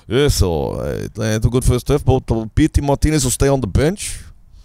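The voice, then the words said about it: Bad put-on Dutch accent. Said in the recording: “When I do a Dutch accent, I know it's terrible. I always pretend I have marbles in my mouth.”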